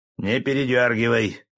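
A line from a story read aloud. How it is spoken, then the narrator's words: Barked. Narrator (Russian): рявкнул Бекетов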